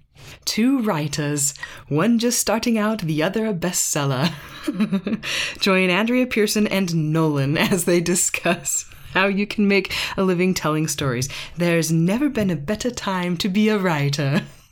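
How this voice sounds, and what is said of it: Put-on British accent. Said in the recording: “have to be read with a British accent”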